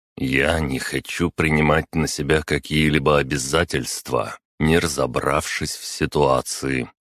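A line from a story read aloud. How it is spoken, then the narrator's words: Calm reply. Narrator (Russian): спокойно ответил я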